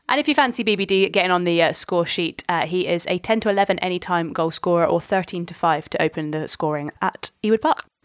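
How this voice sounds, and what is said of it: Occasional Scottish accent on numbers. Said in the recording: “occasional Scottish accent when she says the number 13”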